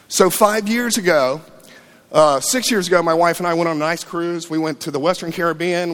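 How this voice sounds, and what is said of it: Emotional, choked-up voice. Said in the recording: “You can probably hear my voice. I'm a little emotional.”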